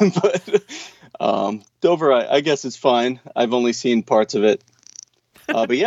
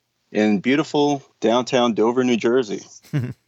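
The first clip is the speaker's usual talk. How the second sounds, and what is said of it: Sarcastic tone. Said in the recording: “That was sarcasm.”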